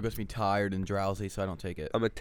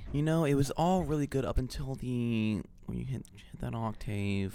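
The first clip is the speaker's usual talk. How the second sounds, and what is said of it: Joker-like character voice. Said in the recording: “Why do you keep talking like that? ... he's the Joker ... I'm impersonating someone, so I go into like that voice”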